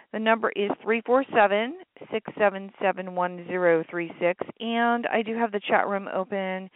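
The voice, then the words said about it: Slightly raspy voice. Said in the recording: “sorry about my voice, too. It's a little raspy”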